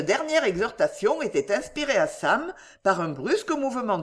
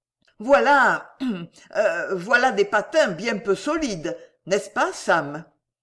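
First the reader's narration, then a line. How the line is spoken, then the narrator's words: Stammering. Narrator (French): balbutia M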